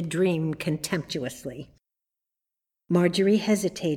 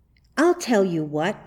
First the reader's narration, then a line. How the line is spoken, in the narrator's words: she exclaimed suddenly